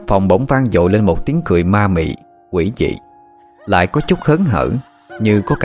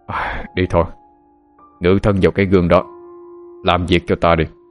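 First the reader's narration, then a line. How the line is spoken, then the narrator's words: Low voice. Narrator (Vietnamese): Tên Nam nhỏ giọng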